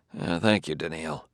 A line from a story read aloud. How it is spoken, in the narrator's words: muttered Bailey